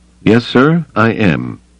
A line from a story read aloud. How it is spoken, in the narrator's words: Pelion said stiffly